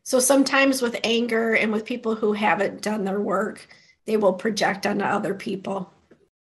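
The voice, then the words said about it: Hoarse, fading voice. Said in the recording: “I have no idea why I'm losing my voice”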